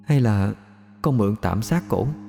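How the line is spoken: Faint murmur. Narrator (Vietnamese): Kim Ngọc bỗng cúi mặt, đôi môi khẽ mấp máy

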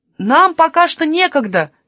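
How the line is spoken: Shout. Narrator (Russian): крикнул ему Каспер

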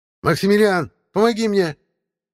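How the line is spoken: Witch shouting aside. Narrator (Russian): крикнула ведьма куда-то в сторону

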